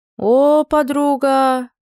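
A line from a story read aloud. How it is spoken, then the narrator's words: Drawn-out voice. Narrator (Russian): протянула Машка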